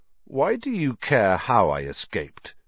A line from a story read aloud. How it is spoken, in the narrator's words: said Harry slowly